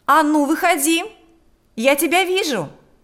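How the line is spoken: Shouting. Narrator (Russian): кричала она

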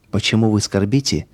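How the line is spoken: Soft, sympathetic. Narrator (Russian): спросил он мягким, участливым голосом

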